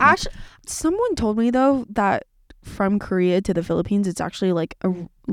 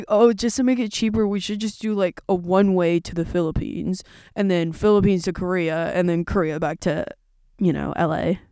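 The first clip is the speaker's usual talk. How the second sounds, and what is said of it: Imitates another person's voice. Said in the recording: “my brother impression”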